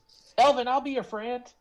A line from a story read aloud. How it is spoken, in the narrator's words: Hudson's gonna kind of run at a diagonal and just yell